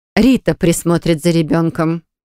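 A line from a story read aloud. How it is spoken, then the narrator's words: Dry reply. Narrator (Russian): сухо отвечает Арина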